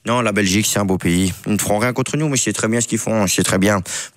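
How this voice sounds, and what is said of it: Rough imitation of another person's voice. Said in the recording (French): “Quelle imitation! ... tant qu'on est dans les imitations approximatives ... C'est un mélange de Kylian et Deschamps”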